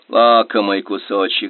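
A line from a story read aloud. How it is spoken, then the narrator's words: Sigh. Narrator (Russian): вздохнул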